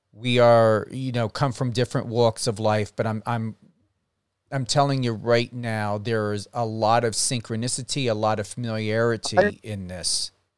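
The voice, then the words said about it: East Coast American accent. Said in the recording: “I'm so into your accent, you know, because it brings me back to my East Coast roots”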